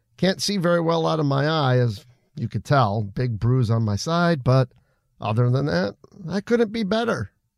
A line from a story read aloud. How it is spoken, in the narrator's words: laughed